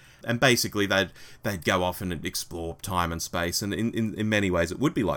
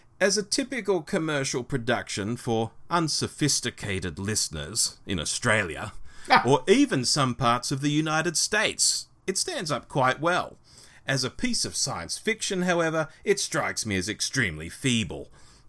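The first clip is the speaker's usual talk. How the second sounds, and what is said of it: Put-on British accent. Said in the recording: “I might even do a British accent for this.”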